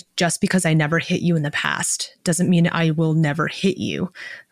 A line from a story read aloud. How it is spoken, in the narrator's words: Shaylan says coldly